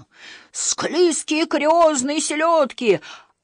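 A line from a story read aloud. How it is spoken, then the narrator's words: Dazed fish-child wailing. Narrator (Russian): ошалело вопил рыбьенок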